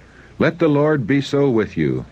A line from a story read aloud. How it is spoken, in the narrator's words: cried